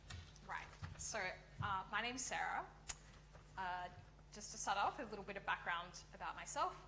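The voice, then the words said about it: Australian accent. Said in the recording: “as you might have detected from my accent ... I come from Australia”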